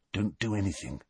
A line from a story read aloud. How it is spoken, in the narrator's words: Harry muttered